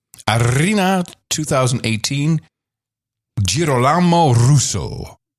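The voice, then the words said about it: Put-on accent reading a wine name. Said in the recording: “I love the accent, baby.”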